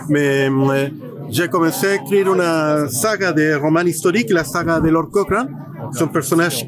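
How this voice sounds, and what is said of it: Chilean Spanish accent in French. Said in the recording (French): “je suis un écrivain chilien, mais j'habite à Paris il y a 8 ans. J'ai encore l'accent”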